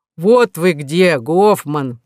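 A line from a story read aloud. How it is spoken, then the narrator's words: Deep reproachful voice. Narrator (Russian): пробасила укоризненно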